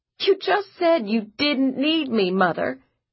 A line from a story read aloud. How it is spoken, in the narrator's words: Josie laughed, but with an edge very close to crying